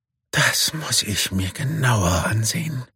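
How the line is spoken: Murmur. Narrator (German): murmelt Sami

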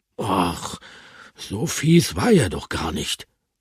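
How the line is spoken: Murmured. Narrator (German): murmelte Bertram

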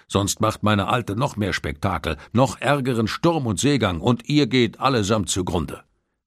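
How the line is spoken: Merman calling out. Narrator (German): rief der Meermann

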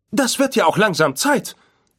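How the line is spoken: Calling out. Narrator (German): rief C-3PO

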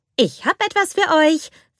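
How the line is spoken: Cheerful announcement. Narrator (German): verkündete fröhlich

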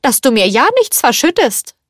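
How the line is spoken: Calling out. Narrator (German): rief

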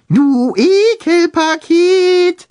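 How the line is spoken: High falsetto call. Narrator (German): rief er mit hoher Fistelstimme

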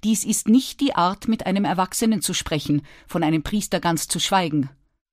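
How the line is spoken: Stern. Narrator (German): sagte er streng

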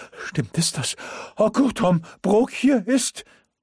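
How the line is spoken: Breathless gasp. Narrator (German): keuchte er atemlos

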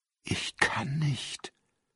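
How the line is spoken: Whispered. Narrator (German): flüsterte er

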